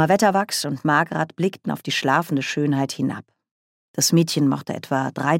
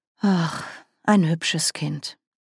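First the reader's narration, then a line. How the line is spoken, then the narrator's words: Romantic, generous sigh. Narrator (German): seufzte die ebenso romantische wie großmütige Margaret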